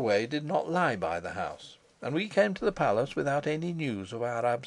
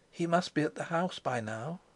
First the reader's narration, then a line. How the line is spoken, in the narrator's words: her uneasiness, whispering